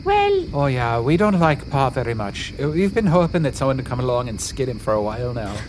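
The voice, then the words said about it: Unconvincing mishmash put-on accent. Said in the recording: “their accents are not very convincing ... little mishmash accent ... half Selkie, half wiener”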